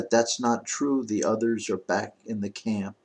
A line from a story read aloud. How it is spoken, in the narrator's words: Matilda, in a tiny, quiet little voice, said